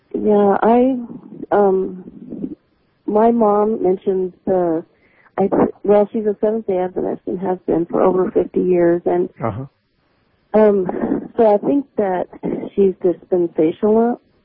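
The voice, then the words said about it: Sick-sounding voice. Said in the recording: “Pardon my voice, I'm sick today”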